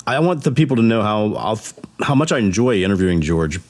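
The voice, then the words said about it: Voice not fully recovered, strained. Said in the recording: “my voice is not fully recovered from COVID and from my little episode this morning.”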